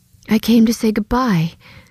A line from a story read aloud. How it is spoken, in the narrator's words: Elizabeth said breathlessly